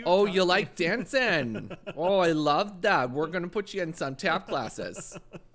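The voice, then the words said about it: Put-on Canadian accent. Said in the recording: “a little bit more Canadianism to the dad ... It was a good accent, but I mean, it's, girl, Canadian ... he's talking Canadian.”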